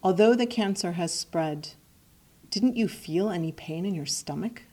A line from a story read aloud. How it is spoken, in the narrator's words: the doctor asks